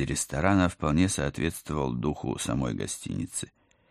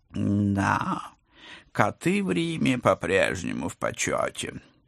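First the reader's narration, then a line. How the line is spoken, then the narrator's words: Purring professor. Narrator (Russian): промурлыкал профессор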